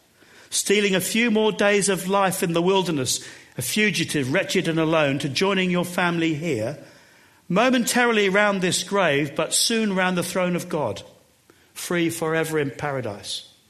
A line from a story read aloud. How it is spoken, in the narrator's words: called out